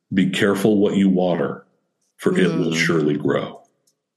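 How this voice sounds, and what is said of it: Deep, haunting delivery. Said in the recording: “It's haunting when you say it like that with your deep voice.”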